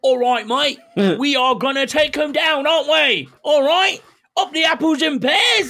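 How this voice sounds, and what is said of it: Exaggerated put-on Cockney accent. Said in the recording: “Talk like a normal English person instead of an idiotic version of Charlie Hunnam when he's in Green Street ... that right annoying accent”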